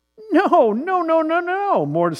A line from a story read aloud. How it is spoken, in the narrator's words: squeaked Mortimer